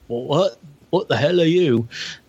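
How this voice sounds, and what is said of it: Poor impression of a movie pirate. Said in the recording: “terrible Jack Sparrow impression.”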